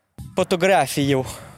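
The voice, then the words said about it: Put-on Italian accent. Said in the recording (French): “je vais faire mon meilleur accent italien”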